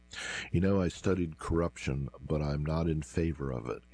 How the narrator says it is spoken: said with a laugh

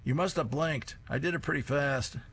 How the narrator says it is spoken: Grandpa yells

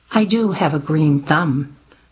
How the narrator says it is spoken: she responded flatly

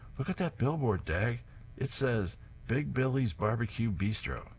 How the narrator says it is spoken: Herb exclaims

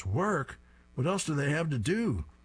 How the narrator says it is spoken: Drabble shouts

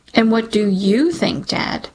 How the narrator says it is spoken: I say, pain slicing through my voice like a switchblade

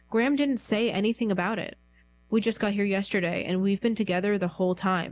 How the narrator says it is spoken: Mark said

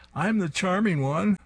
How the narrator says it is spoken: shouts

